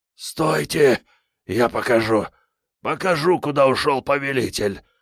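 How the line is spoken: Hoarse, restrained wheeze. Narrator (Russian): захрипел химеролог, сдерживаясь

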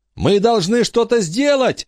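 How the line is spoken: Shout. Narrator (Russian): закричал Майкл

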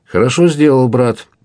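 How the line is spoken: Cheerful exclamation. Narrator (Russian): весело вскричал Монбар

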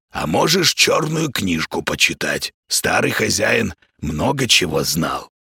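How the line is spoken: Hoarse. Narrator (Russian): хриплое

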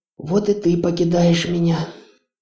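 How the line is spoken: Wistful sigh. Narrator (Russian): Мама Хона тоскливо вздохнула

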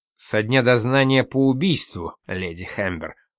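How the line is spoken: Cold correction. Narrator (Russian): холодно поправил его Лоусон

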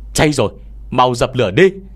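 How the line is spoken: Shout. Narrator (Vietnamese): tiếng hét này vang lên

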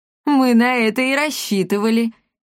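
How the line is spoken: Loud laughter. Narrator (Russian): расхохотался Щербатый

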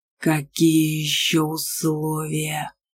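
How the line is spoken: Growling. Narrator (Russian): зарычал Аргар

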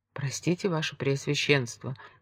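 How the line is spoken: Timid, low voice. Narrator (Russian): начал сержант вполголоса, явно робея

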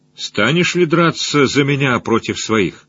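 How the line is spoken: Even-voiced question. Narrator (Russian): воевода спросил ровным голосом

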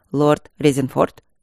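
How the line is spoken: Dry greeting. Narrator (Russian): сухо поприветствовал коллегу Тедус

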